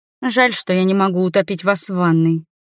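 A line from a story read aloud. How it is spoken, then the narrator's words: Grim declaration. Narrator (Russian): мрачно заявила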